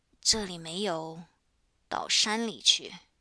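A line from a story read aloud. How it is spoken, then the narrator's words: Timid low voice. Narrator (Chinese): 怯怯的低声说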